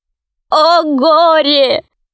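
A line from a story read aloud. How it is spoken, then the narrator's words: Sobbing. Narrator (Russian): рыдал гном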